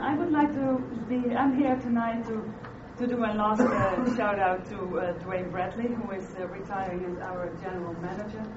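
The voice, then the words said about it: Noticeable foreign accent in English. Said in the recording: “if you recognize my funny accent”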